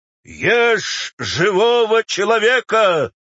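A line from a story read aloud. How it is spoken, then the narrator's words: Howling crowd. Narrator (Russian): взвыл театр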